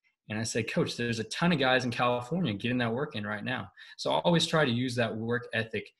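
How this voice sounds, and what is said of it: Usual voice. Nothing is said of it.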